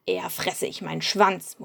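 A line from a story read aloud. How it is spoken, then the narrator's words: Male murmur. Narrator (German): murmelte er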